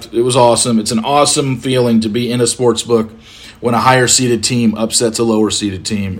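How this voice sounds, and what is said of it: Hoarse, strained voice. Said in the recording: “You can tell my voice is a little bit fried just from sitting and screaming at the TV”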